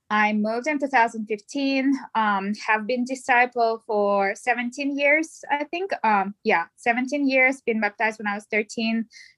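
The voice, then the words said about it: Russian accent. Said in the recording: “I am originally from Russia, as you can hear my accent.”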